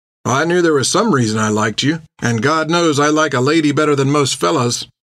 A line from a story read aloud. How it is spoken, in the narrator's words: Tan said with a chuckle